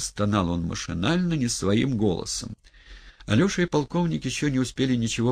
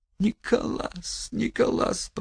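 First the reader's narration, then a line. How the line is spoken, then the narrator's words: Victim's moan. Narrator (Russian): простонала опять жертва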